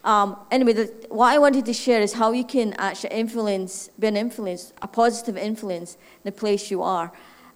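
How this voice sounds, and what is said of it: Scottish accent. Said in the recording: “My funny accent, in case somebody wants to figure out, is Scottish.”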